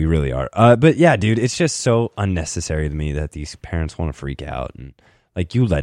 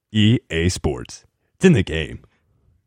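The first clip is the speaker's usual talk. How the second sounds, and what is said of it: Very deep announcer voice impression. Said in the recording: “impersonate ... Mine was way better. You know why? Because I can get real deep with it”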